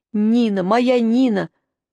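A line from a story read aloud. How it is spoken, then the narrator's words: Sobbing. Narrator (Russian): Жорик так рыдал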